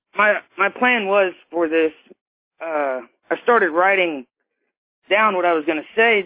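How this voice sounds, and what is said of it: Emotional, choked-up voice. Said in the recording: “I'm getting emotional.”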